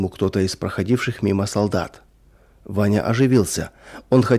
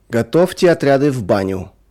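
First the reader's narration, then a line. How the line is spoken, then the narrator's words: Sudden shout, guard. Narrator (Russian): вдруг крикнул конвоир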